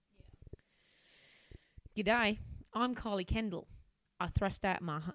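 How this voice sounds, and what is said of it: Poor put-on Australian accent, deep. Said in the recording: “Horrendous Australian ... I've got a proper deep voice for Kylie ... I can't do it. I've become too much of a cockney.”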